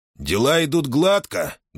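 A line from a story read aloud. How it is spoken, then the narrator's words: Loud question for all. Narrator (Russian): громко спросил Ахмед, чтобы услышали все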